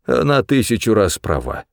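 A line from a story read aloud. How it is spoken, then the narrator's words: Quiet, father speaking. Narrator (Russian): сказал отец тихо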